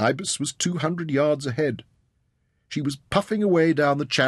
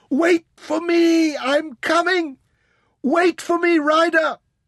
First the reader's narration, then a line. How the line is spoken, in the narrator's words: she screamed at the top of her voice